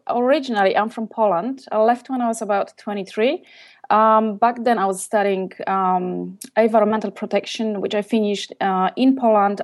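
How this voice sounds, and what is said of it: Exotic foreign accent. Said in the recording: “you've got this exotic accent”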